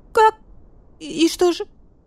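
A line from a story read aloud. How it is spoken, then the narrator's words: Trembling voice. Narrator (Russian): дрожащим голосом уточнил барсукот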